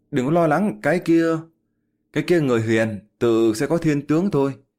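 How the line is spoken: Sighing. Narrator (Vietnamese): Lý Tuyết thở dài một hơi, nói

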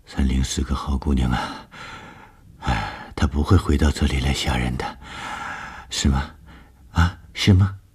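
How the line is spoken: Murmuring. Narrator (Chinese): 吴医生喃喃地说

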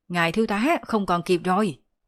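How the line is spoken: Soldier's shout. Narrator (Vietnamese): Một binh sĩ hét lên

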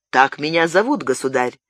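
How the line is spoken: Calm reply. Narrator (Russian): спокойно ответил Габриэль

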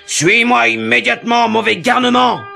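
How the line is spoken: Growl. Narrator (French): grogna-t-il

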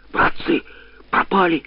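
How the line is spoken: Hiss. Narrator (Russian): зашипел Смирнов

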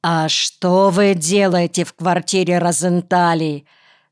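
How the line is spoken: Stern question. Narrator (Russian): строго спрашивает младший Перзика

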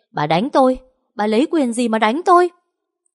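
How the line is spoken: Loud scream. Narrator (Vietnamese): thét lớn lên

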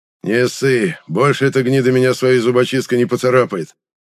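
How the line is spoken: Smirking thug. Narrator (Russian): хмыкнул отморозок

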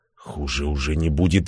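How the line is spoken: Barely audible. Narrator (Russian): еле слышно произнес я

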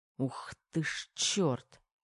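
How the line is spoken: Soundless mutter. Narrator (Russian): беззвучно пробормотал Терехов

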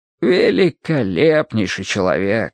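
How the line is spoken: Sighing. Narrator (Russian): вздохнул доктор

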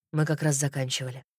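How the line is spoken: Soft. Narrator (Russian): мягко сказал Кристиан

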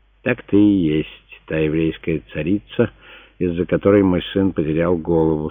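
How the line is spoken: Calm emperor stating. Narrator (Russian): спокойно констатировал император

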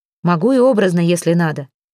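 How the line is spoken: Snapping retort. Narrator (Russian): огрызнулся Николай

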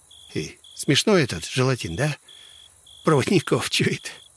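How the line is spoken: Giggling. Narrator (Russian): Он хихикнул

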